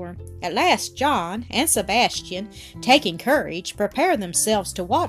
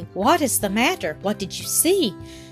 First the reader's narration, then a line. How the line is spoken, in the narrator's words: Sebastian, not having seen anything, asked anxiously